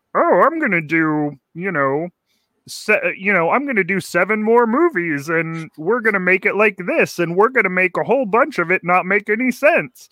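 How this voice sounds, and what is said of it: Imitates another person's voice. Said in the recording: “That's my George Lucas impression.”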